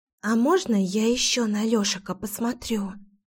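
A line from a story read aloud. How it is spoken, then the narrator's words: Loud whisper. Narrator (Russian): Громким шепотом уточнила Кира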